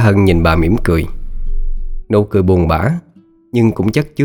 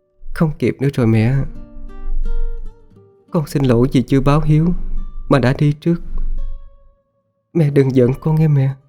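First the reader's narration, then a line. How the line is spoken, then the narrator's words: Soft voice. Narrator (Vietnamese): Cô khẽ nói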